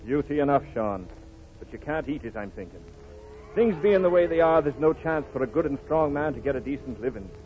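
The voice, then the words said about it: Irish brogue, County Cork. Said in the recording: “County Cork, from the Brogue”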